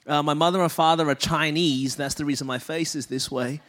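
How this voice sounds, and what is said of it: Australian accent. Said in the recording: “I was born and raised in Melbourne, Australia. That's the reason my voice is this way.”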